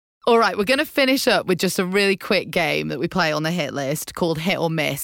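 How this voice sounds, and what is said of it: English accent. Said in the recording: “The English accent. ... Such a hit. I think accents are the best thing ever, especially an English accent.”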